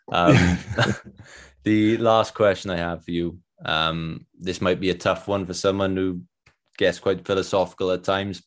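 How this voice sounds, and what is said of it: Welsh accent. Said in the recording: “my Welsh accent creeping through”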